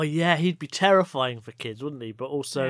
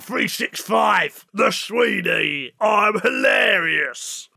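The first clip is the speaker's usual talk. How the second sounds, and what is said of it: Imitates another person's voice. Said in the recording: “my brilliant impression of Ray Winston”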